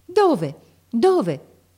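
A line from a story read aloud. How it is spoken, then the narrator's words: Startled shout. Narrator (Italian): gridò Marco saltando su come un resuscitato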